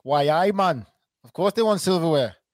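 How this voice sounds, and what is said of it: Put-on Geordie accent. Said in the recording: “That's my Geordie accent”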